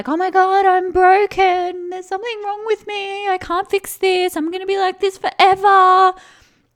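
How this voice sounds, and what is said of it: Exaggerated dramatic voice. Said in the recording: “it wants to be all dramatic ... If you can't tell by my dramatic voice”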